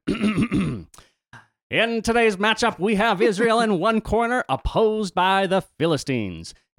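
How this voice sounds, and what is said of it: Sports announcer voice. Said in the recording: “Sports highlight announcer voice.”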